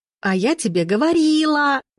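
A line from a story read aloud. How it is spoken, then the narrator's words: Howling wail. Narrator (Russian): взвыла Рита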